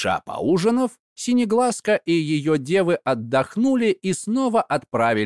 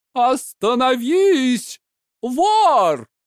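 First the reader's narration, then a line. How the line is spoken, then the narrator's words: Menacing shout. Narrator (Russian): грозно закричала Синеглазка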